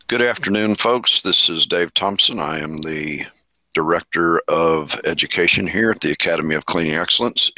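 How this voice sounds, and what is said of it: Slightly rough, worn voice. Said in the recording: “my voice sounds a little bit rough today, I've been teaching classes all week long”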